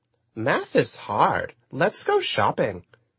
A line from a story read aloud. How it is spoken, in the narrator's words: she said in a squeaky, sing-song voice